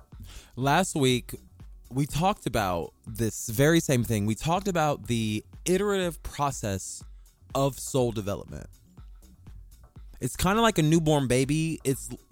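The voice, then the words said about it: Excited, slurred speech. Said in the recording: “I'm getting excited. I'm slurring my words.”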